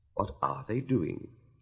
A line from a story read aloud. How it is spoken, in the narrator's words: Alice whispered to the Gryphon